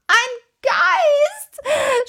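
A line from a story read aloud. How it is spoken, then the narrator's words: Wild scream. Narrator (German): schrie Tommy wild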